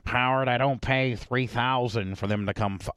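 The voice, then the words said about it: Charlie Sheen impression. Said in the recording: “I'm probably not a good impersonator.”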